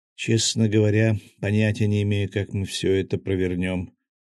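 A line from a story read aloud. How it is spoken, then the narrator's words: Sighing. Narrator (Russian): вздохнула Кристина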